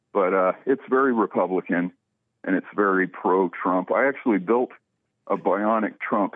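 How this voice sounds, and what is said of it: Out of breath speech. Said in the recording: “Sorry, I'm out of breath.”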